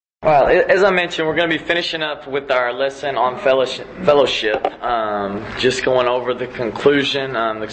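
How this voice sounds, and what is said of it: Strained voice, weaker than usual. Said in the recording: “My voice isn't what it's normally at because on Tuesday nights I yell and scream at high school girls ... if you can't hear me”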